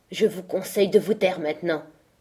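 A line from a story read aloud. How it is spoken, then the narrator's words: Furious reply. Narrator (French): répondit-il d'un ton furieux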